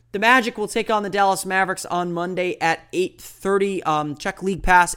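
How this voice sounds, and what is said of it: Voice slightly off, sounds unwell. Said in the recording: “my voice is a little bit off today. I am a little bit under the weather”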